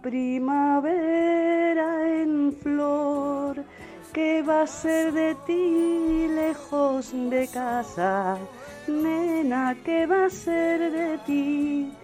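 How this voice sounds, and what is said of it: Singing in tune, pretty voice. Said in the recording (Spanish): “Pero si cantas divinamente, qué bien entonada, qué bonita voz. ¡Qué bien cantado!”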